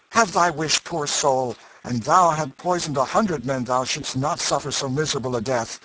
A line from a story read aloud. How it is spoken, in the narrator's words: he cried out